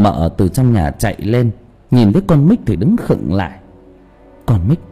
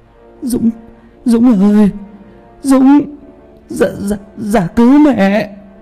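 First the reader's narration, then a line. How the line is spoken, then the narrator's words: Stiff-mouthed stammering. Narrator (Vietnamese): Bà ngoại mồm cứng đơ lại, chỉ lắp bắp được mấy tiếng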